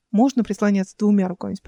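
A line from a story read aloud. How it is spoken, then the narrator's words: Plain question. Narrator (Russian): спросила Эл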